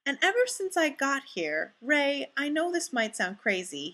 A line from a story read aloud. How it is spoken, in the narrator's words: Fraser explains earnestly